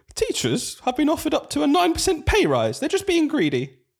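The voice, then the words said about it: Posh English woman's accent. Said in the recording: “gonna put an accent on ... I'm going to find a new accent ... It's a posh lady now from somewhere in the middle of the country.”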